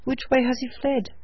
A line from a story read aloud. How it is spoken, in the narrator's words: cried the trooper